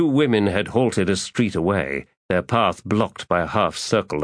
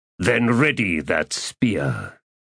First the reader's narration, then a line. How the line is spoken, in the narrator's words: he said in a growl